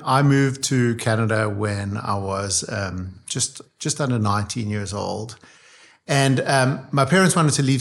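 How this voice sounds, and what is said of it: South African accent. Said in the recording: “we can pick up on an accent from South Africa”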